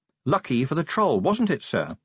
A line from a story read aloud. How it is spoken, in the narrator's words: said Angua sharply